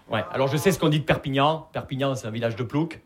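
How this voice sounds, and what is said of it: Regional Perpignan accent, not Parisian. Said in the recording (French): “Vous l'entendez à mon accent, je viens pas de Paris. Je viens de Perpignan.”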